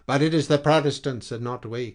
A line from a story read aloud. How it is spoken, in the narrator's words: cried the other impatiently